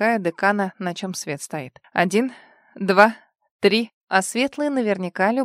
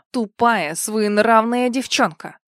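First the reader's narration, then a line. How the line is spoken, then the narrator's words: Dean growling. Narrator (Russian): прорычал декан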